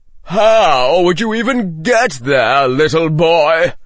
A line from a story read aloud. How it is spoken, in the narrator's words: Someone said from among those who were laughing